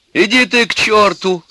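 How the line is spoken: Tearful shout. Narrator (Russian): закричала на него заплаканная Алька

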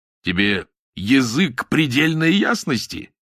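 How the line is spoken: Laughing, releasing tension. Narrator (Russian): рассмеялся Рубин, сорвался с напряжения

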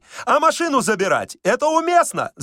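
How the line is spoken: Tactless shout. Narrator (Russian): закричал нетактичный Балаганов

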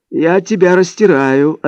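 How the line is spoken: Mock monotone, then laughing. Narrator (Russian): ответил он, подражая моему монотонному голосу, и рассмеялся

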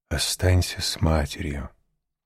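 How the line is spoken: Gentle. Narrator (Russian): он ласково остановил ее и сказал

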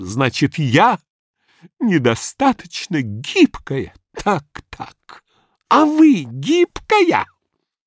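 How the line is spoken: Sobbing voice. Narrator (Russian): сказала рыдающим голосом

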